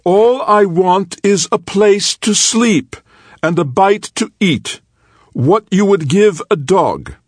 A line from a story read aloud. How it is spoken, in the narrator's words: he shouted